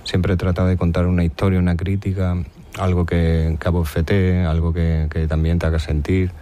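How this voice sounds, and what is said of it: Extremaduran Spanish accent. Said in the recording (Spanish): “sigues conservando ese acento extremeño, ¿eh? Yo te lo noto ahora en la entrevista”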